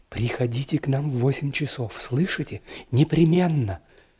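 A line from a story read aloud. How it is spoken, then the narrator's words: Quick affectionate whisper. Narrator (Russian): она скороговоркой и с прежним ласковым выражением в глазах шепнула мне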